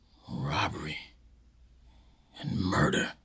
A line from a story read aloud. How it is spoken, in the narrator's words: he whispered slowly to himself